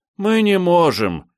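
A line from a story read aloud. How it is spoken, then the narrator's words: Sad, near unison. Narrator (Russian): печально ответили они, едва ли не хором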